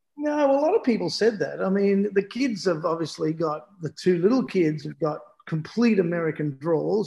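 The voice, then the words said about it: Australian accent, no American tinge. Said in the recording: “this is how Australian you are, mate. You didn't pick up one ounce of American accent.”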